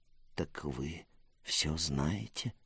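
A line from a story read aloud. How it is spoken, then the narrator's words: Whispered. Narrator (Russian): прошептал Сект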